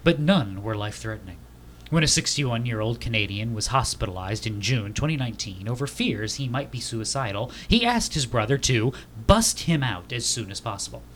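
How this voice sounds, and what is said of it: NPR radio announcer voice. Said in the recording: “I gotta get my NPR voice going ... no more of the NPR voice. That hurts my throat.”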